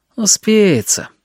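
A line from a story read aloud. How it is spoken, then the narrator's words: Lazy reply. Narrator (Russian): лениво ответил он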